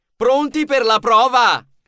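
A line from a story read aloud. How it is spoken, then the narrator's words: Thundering at full breath. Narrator (Italian): fece un bel respiro e tuonò con tutto il fiato che aveva in corpo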